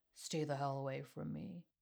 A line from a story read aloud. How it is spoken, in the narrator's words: muttering